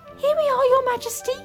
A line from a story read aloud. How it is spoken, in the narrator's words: cried